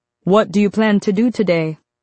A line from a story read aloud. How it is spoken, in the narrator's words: he asks